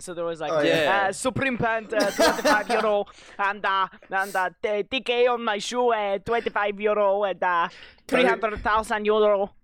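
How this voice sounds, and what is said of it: Mock European accent. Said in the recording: “European then, accents.”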